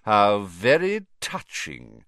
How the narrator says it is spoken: sneered Snape

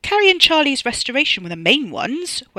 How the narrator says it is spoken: Wes snapped

